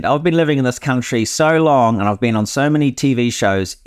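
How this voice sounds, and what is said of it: Strong foreign accent. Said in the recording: “I wouldn't understand 50% of what you said ... you're the only one that has an issue with my accent.”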